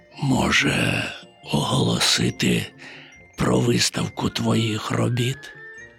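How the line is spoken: Near whisper. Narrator (Ukrainian): майже пошепки мовив він

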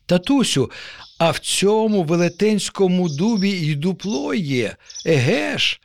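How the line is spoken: Joyful exclamation. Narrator (Ukrainian): радісно вигукнув нащадок

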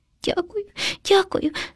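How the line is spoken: Frightened sobbing hamster. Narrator (Ukrainian): схлипнув наляканий хом'ячок

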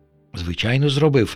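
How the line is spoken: Soft whisper. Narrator (Ukrainian): тихенько замість Вови прошепотів пилососик

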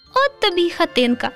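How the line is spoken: Laughing. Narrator (Ukrainian): засміялося руденьке

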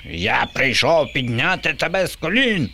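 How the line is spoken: Shrieking. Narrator (Ukrainian): верещав Боба

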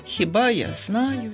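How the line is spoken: Sighing. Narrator (Ukrainian): зітхнув Ромчик

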